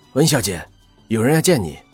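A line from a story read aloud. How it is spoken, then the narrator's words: Policeman calling loudly. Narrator (Chinese): 一个警察高声的喊道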